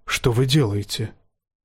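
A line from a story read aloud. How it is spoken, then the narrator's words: Whisper. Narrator (Russian): шепнул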